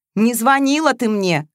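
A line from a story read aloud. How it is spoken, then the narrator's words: Barking. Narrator (Russian): рявкнул Матвеев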